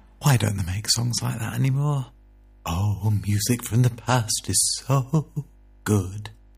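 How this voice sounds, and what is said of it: Dramatic put-on voice. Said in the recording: “I tried to do a little dramatic voice. Not like me, is it?”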